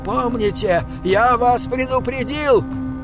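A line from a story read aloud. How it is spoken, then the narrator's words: Shouted. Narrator (Russian): крикнул он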